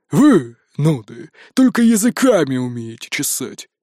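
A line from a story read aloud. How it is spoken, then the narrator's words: Grumbling. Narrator (Russian): проворчал Ури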